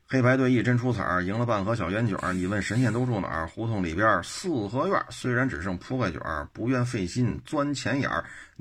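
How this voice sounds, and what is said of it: Beijing dialect reading. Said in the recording (Chinese): “按这种口音念，这就是北京话”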